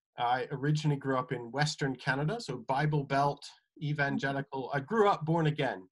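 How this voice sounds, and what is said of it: Odd mixed accent. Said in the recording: “So that's kind of my odd accent.”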